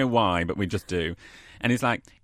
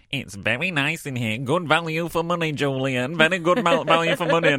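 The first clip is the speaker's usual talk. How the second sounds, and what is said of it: Nasal imitation of an older man. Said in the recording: “I always do an impression of my dad with a nasal voice.”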